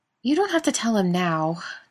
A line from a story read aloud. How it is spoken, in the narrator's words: Daniil said with a sigh